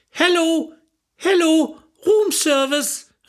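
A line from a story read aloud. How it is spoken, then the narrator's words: Calling out. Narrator (German): rief sie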